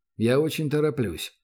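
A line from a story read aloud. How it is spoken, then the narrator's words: Very calm. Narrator (Russian): голос Гатриана прозвучал предельно спокойно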